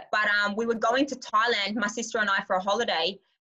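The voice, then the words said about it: Australian accent with Scottish traces. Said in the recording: “my accent, like it's not 100% Aussie. Like some words I say, it's Scottish.”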